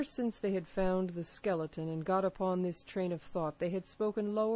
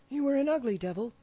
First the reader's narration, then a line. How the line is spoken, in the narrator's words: cried a third pirate with a shudder